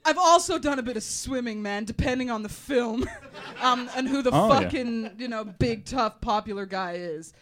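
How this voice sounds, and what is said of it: Put-on American accent. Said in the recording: “how shoddy is my American accent? I haven't had fucking do one of these for a few years, and I didn't practice”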